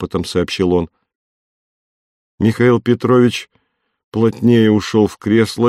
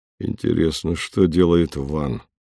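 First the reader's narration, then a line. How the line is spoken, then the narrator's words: Muttered. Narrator (Russian): пробормотал он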